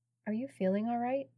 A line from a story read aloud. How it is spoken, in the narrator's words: asked in a low tone